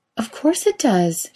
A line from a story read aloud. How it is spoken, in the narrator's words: she exclaims